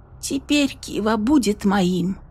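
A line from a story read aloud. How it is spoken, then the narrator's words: Timid girl's question. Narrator (Russian): робко спросила девушка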